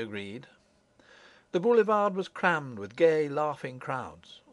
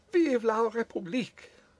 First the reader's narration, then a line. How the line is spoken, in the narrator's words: cried Madame Foucault incontinently